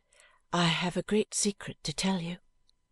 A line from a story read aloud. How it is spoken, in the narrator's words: murmured Ada